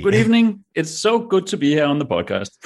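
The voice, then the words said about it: Deep bassy Danish accent. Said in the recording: “your voice on that mic is so much better than mine. You've gone into full, like, bassy ... Do your stupid, sexy Danish accent”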